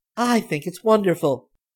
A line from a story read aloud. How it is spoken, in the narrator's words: Barbie exclaimed